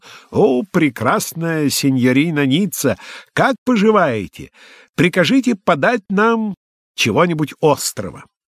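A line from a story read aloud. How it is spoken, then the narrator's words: Cheerful shout. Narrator (Russian): Спутник милорда закричал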